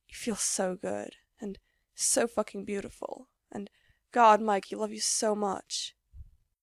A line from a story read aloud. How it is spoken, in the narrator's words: whispers